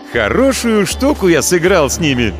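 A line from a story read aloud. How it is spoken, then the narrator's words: Cheerful. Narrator (Russian): весело сказал он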